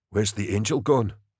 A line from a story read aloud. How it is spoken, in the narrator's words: Larkin said quietly